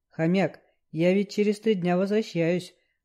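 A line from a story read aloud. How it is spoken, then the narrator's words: Gloomy reminder. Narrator (Russian): мрачно напомнил Лёшка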